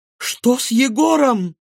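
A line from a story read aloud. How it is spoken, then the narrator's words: Frightened mother's exclamation. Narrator (Russian): испуганно воскликнула мама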